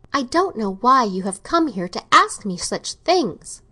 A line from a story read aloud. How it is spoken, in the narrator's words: Catherine exclaimed